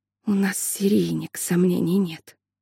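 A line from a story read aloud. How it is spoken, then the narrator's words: Whisper. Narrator (Russian): прошептала она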